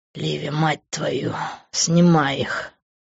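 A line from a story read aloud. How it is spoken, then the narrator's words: Hissed with sharp inhale. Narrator (Russian): Прошипел он, втягивая в себя воздух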